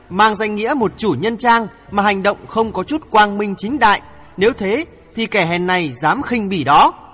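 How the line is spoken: Loud laughter. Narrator (Vietnamese): Hoàng Thượng Chí cười lớn

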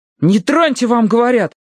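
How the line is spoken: Shout. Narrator (Russian): крикнул Словко

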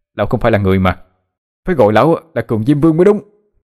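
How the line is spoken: Angry hurt shout. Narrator (Vietnamese): vì một đồng bạc mà bị đánh đau quá, nó tức giận mà hét lên

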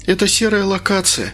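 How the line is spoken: Sighing. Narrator (Russian): вздохнула Инга

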